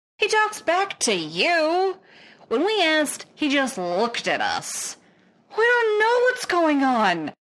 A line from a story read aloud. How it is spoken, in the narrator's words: the lieutenant wails